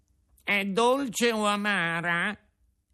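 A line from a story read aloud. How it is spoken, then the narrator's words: Whining question. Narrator (Italian): domandò con voce di piagnisteo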